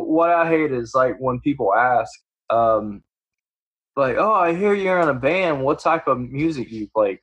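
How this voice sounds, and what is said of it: Country Southern US accent. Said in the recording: “you got a country accent. Don't even try to hide that.”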